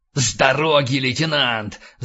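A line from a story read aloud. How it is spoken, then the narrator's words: Growl. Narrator (Russian): зарычал Рэндалл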